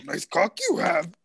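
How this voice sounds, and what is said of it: Raspy Yoda-like character voice. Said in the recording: “do your Yoda impression... If Yoda and Marge Simpson had a baby... My throat's raspy”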